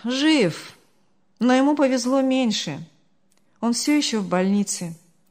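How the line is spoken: Sigh. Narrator (Russian): вздохнул Артур

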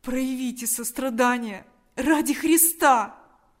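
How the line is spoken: Desperate pleading. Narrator (Russian): Взмолился Степан с новым отчаянием

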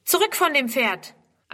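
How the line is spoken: Calling out. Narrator (German): ruft

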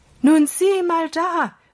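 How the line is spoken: Calling out. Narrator (German): rief er Holger zu

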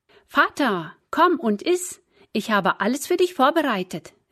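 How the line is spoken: Called out to him. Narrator (German): rief Esau ihm zu

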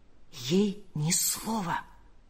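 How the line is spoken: Whisper. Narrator (Russian): прошептал он

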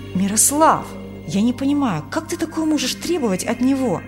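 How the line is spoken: Young man exclaiming. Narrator (Russian): воскликнул молодой врач

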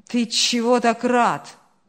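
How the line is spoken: Grumbling mutter. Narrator (Russian): пробурчал Ильяс

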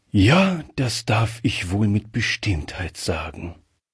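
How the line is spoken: Reply with deep sigh. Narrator (German): erwiderte der Oberst mit einem tiefen Seufzer

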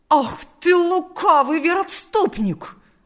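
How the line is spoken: Angry exclamation. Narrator (Russian): воскликнул растерженный отец Василий

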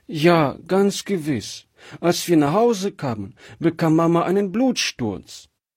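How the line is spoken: Child sobbing bitterly. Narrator (German): erzählte das jetzt doch bitterlich schluchzende Kind

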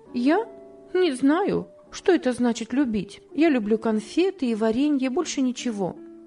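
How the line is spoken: Plain. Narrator (Russian): ответила Топси

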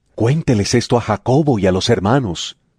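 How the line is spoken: Plain. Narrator (Spanish): les dijo

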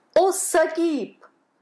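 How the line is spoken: Exclamation. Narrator (Russian): воскликнул он

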